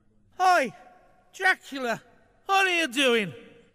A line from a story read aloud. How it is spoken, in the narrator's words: He called out to the arresting officer